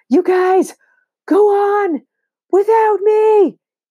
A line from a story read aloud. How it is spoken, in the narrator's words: he yells